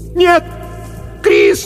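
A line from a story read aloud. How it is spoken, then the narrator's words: Shouting. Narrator (Russian): закричала она в темноту позади себя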